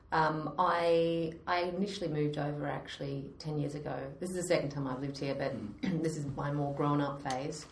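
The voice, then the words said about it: Australian accent. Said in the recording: “So I am an Aussie Brit now, but I have not managed to lose my accent”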